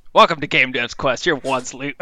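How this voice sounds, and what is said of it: Imitates another person's voice. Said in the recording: “Is that your impression of me? ... Yeah, I was trying to do an impression of you.”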